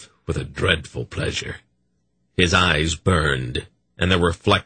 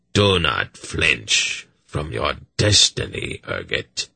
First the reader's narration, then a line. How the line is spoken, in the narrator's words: Agachak continued in his hollow voice